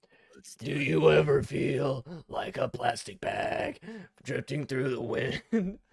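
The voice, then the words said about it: Imitates another person's voice. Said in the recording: “That's honestly a really good James Corden impression.”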